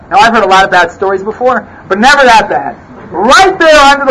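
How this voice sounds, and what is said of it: Usual voice. Nothing is said of it.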